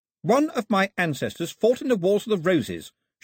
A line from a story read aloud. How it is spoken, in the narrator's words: she announced haughtily